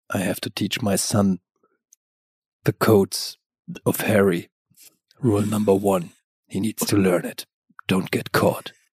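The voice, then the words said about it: Dead-serious, portentous voice. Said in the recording (German): “mit so einer bierernsten Stimme ... du sagst das jetzt so bedeutungsschwanger”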